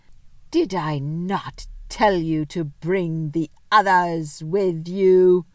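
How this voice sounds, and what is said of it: Terrible, menacing voice. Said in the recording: “in a terrible voice”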